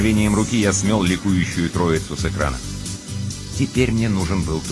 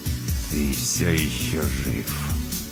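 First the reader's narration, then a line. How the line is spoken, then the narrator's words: Spiteful through teeth. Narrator (Russian): Четвертый злобно процедил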